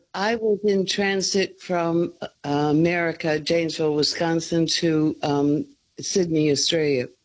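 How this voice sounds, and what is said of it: North American accent. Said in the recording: “I detect a North American accent”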